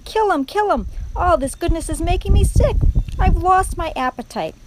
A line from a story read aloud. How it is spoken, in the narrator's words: shouted Botticelli again